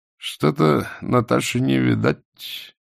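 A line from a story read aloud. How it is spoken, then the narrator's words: Mutter. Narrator (Russian): пробормотал блондин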